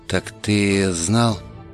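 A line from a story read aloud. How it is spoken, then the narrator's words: Realizing, boy's voice. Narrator (Russian): догадался мальчишка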